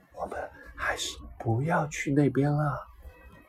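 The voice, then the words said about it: Quiet, hushed voice. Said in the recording (Chinese): “小声说 ... 小声”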